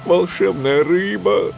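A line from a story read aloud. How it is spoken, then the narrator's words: Pleading. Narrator (Russian): взмолился он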